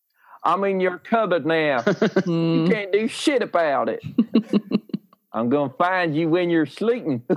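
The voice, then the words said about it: Put-on Deep South American accent. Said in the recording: “Look like a fucking hick in a cupboard... You look like someone has transported you from the deepest, darkest south of America... Have you put that accent on your spotlight?... that accent's really popular now because of Tiger King”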